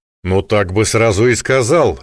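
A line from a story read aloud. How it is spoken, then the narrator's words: Amused grunt. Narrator (Russian): Несвицкий хмыкнул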